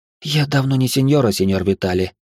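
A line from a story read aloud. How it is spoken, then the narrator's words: Quiet, sad reply. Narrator (Russian): тихим и грустным голосом ответила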